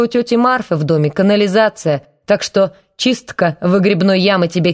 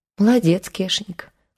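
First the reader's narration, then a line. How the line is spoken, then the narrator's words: Affectionate. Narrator (Russian): ласково сказала она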